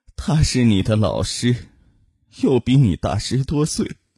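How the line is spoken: Tearful, sighing mother. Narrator (Chinese): 母亲抹着眼泪，叹息的说

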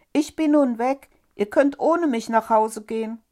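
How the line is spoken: Loud call. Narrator (German): rief er laut

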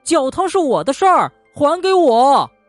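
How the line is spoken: Shrieked. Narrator (Chinese): 松鼠尖叫

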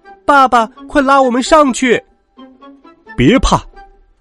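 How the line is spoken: Shouting loudly. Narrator (Chinese): 他们大声喊道

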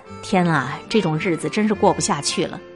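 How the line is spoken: Despairing sigh. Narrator (Chinese): 崩溃一小会儿，感叹

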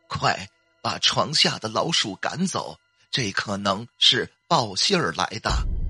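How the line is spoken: Trembling, choked-up voice. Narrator (Chinese): 奶奶马上声音有些颤抖，甚至带着哽咽的说

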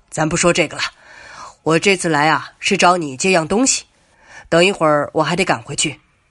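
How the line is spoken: Gloomy, forced smile. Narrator (Chinese): 程翔脸色阴郁起来，僵硬的笑笑

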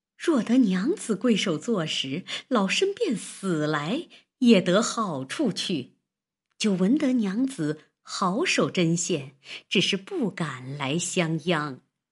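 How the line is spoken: Smiling old woman. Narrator (Chinese): 那婆子听了这话，堆下笑来说道

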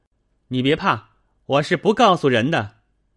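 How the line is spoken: Calling out. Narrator (Chinese): 宝玉叫道

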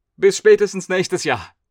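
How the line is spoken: Called out. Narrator (German): rief er noch

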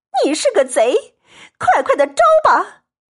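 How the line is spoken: Angry crying shout. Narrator (Chinese): 气得环儿也哭喊起来

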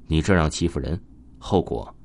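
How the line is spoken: Quiet but clear. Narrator (Chinese): 声音不大，但是文东听得很清楚

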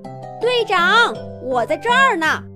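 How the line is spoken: Distant call. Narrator (Chinese): 苍龙远远地喊着

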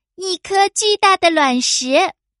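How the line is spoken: Smug triumphant shout. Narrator (Chinese): 他洋洋得意的喊着

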